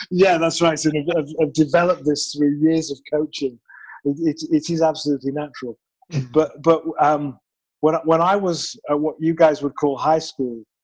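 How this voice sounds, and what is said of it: British English accent. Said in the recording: “I am originally from the United Kingdom. I promise this is a natural accent... Nice accent.”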